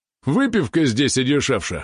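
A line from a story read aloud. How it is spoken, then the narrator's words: Chuckle. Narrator (Russian): хохотнул он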